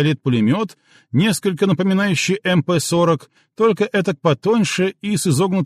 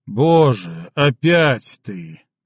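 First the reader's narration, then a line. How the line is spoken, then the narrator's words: Groaning. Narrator (Russian): простонал Шнауцен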